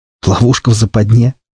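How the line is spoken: Surprised snort. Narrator (Russian): удивительно хмыкнул я

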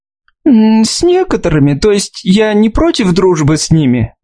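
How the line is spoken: Nervous laugh. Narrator (Russian): Мелисса нервно засмеялась

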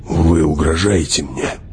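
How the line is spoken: Near growl. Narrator (Russian): почти прорычал он

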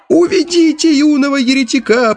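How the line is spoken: Shrill squeal, elderly man. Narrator (Russian): пронзительно взвизгнул старейший песнопевец

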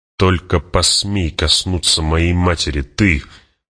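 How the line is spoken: Furious, through gritted teeth. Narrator (Russian): процедил Пауль сквозь зубы, яростно

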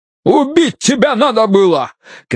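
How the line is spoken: Shouting. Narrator (Russian): кричал Бидвелл

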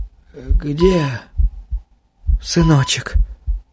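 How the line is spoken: Quick anxious whisper. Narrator (Russian): Быстрый взволнованный шепот

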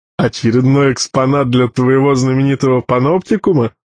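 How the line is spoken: Short mocking chuckle. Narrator (Russian): хохотнул Крепыш

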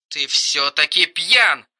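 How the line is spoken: Withering through gritted teeth. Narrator (Russian): Уничтожающе процедила Кирстен

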